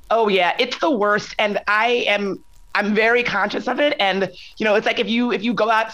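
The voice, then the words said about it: Slightly husky, strained voice. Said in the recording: “my voice sounds a little bit husky, it's because I'm at South by Southwest right now and I've been out screaming at concerts for the last 2 days”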